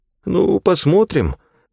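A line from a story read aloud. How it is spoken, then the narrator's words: Doubtful mumble. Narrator (Russian): промямлил Уиндом Мэтсон, явно сомневаясь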